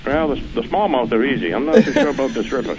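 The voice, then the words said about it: Maine accent. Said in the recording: “his accent was amazing ... I love that Maine accent”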